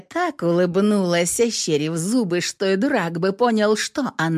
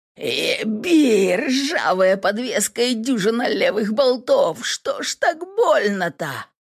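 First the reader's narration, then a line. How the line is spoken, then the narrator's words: Howling in pain. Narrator (Russian): взвыл от прострелившей мою ногу боли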